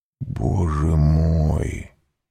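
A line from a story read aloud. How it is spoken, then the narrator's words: Barely audible whisper. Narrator (Russian): еле слышно прошептал Вильфор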